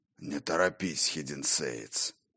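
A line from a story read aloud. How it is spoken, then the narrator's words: Hoarse voice from behind. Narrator (Russian): Раздалось за спиной хриплое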